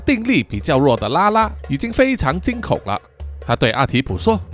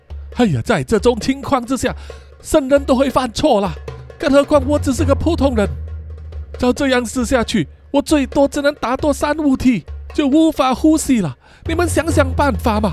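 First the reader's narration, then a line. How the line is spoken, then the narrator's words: Breathless, panting. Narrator (Chinese): 他喘着气说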